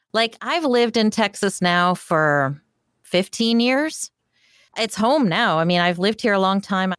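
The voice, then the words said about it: Northern US regional accent. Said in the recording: “You don't sound like you're from, you know, I still have my accent, I guess. ... do they call you a Yankee? ... Yeah, all the time.”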